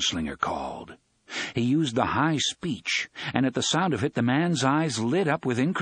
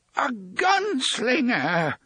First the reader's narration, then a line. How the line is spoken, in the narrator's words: the man cried